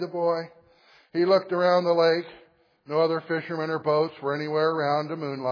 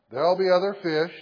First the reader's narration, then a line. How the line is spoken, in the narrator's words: said his father